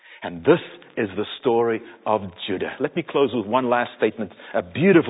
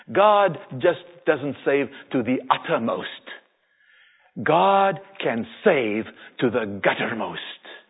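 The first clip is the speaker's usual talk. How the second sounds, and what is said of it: Thick Afrikaner accent. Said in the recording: “in his thick Afrikaner accent”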